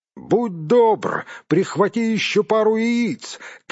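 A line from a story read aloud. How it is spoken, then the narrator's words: Calling after someone. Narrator (Russian): крикнул ему вслед Гэндальф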